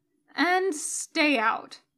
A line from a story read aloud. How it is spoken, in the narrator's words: he mutters